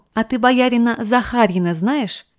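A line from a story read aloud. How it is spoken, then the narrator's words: Plain. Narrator (Russian): спросил он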